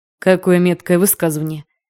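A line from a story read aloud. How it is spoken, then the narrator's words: Approving snort. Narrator (Russian): одобрительно хмыкнул Эл Патрик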